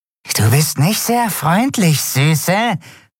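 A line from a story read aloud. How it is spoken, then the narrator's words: Hissing. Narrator (German): zischte es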